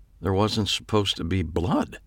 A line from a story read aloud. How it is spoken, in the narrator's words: he said quietly